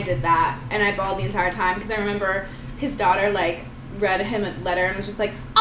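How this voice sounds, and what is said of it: Usual voice. Nothing is said of it.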